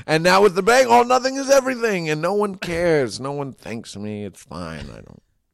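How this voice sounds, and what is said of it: Bad Donald Trump impression. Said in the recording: “It's a bad Trump impression, but I want to be good at it.”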